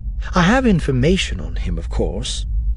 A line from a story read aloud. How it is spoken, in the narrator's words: Orinda said, keeping her voice casual